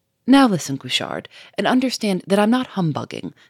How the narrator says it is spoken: said Lupin quickly, in clear, compelling tones

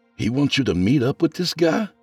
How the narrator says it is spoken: Nathan exclaimed

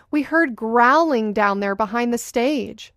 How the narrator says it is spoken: the helper exclaiming

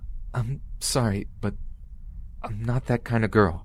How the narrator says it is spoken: I said to him in a terrified, cracking voice

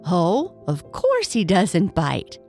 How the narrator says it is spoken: laughed Miss Mug

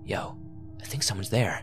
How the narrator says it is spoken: Wolf whispered

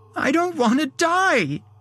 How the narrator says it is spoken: she cried

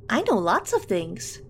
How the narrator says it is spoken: Nancy chirped

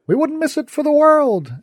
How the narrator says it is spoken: Someone shouted

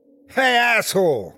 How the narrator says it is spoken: I yelled

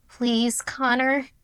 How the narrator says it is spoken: had pleaded

